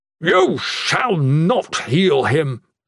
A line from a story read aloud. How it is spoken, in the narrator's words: the Blessed One thundered at her